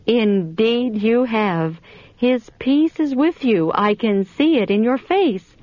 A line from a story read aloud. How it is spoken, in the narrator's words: she exclaimed